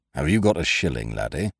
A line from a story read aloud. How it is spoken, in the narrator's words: said Ukridge in a low, level voice